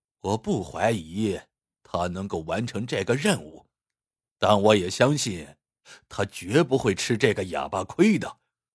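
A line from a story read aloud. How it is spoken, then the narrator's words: Serious, smile dropped. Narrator (Chinese): 库伯收起笑容说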